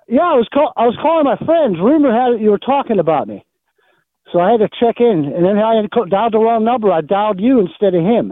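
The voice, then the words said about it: Slight Pittsburgh accent, nasal voice. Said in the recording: “Pittsburgh accent? ... Slightly. ... A little bit. ... I have a nasally voice.”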